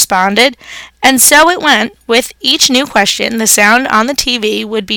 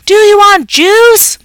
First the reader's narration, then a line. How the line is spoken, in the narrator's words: Mom screamed